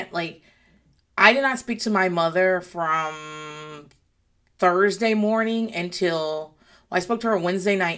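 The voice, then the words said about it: Slightly gravelly, recovering voice. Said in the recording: “My voice is still a little bit gravelly right this second, but it's way better than it was.”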